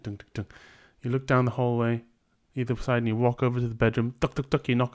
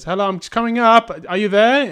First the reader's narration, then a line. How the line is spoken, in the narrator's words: You go shout up the stairs